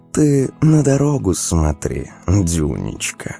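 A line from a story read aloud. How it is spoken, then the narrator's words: Velvety purring reply. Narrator (Russian): ответила неожиданным для самой себя бархатным мурлыканьем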